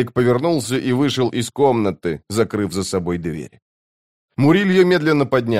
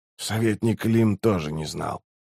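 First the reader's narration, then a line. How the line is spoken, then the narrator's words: Quiet. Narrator (Russian): тихо сказал Раллик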